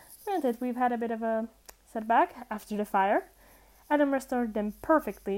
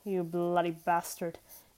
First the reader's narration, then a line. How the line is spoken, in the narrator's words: Crowley muttered